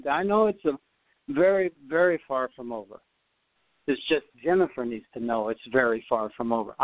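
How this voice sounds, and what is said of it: Imitates another person's accent. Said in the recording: “He'd have his accent.”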